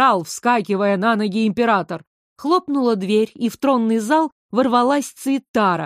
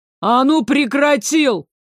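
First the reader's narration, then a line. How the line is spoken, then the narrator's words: Barked. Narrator (Russian): Рявкнул Пятый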